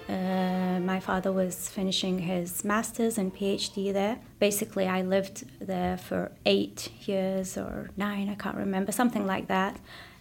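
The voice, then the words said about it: Faint northern English accent. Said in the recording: “They lived in mostly northern England, and you can hear it in her accent ... if you go up north, it's more of a Scottish accent, so I kind of, it's hidden back away, and it comes out a little bit here and there”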